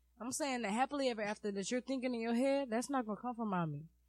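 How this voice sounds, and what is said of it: Heavy Caribbean Spanish accent. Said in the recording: “got the accent on heavy right now ... My accent comes out ... Caribbean Spanish ... The accent, crazy.”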